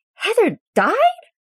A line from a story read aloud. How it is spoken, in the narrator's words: Scott screeches